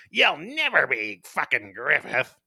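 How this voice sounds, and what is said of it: Snide impression of Corkus. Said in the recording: “That was a good impression. ... I think that's kind of how they voiced him in the American dub. ... snide little...”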